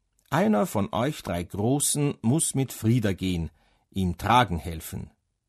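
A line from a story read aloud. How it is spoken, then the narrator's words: Plain. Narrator (German): sagte Frau Pfäffling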